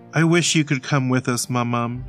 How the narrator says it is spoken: she said with a sigh

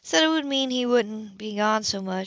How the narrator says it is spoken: she sighed

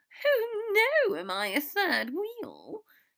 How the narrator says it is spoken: she giggled

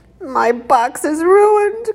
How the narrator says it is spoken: Crispin sobbed

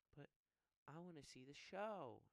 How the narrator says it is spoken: he whined

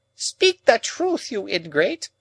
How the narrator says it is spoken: cried Miss Havisham, passionately

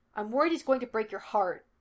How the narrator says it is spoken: Henry snapped

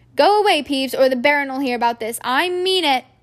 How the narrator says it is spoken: barked Percy

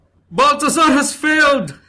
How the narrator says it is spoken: Melchor cried

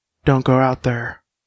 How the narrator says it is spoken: he whispered

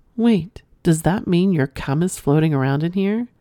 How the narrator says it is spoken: Kim asked

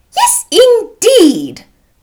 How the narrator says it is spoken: cried Mrs

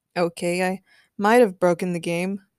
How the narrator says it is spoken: muttered Raven

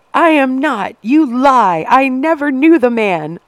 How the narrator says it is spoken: Anna screamed back across the station

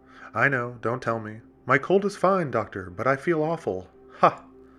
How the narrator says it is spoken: He laughed at his own oft-repeated joke

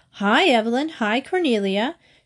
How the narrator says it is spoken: she called out happily

